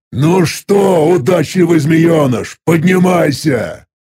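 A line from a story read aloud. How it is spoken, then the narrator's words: Demon's growl. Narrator (Russian): прорычал демон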